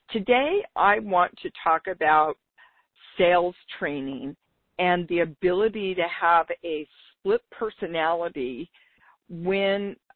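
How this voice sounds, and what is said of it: Slightly raspy voice. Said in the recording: “lost my voice for about 2 weeks. It's still a little bit raspy,”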